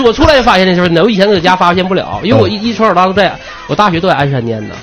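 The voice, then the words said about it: Distinctive Anshan Liaoning accent. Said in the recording (Chinese): “口音特别 ... 人家说你口音怎么这么特别 ... 沈阳人都挑你这个口音”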